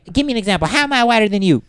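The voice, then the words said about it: Imitates another person's voice, bad impression. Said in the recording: “That sounded kind of ghetto to me. It didn't just sound white. ... That was a bad impression.”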